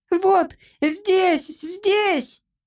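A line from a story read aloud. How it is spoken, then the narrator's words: Sudden squeak. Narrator (Russian): запищал вдруг Джимпер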